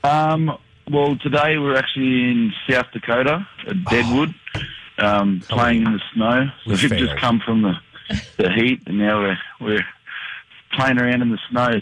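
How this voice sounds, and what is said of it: Speaks with a foreign accent. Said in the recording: “We love your accent.”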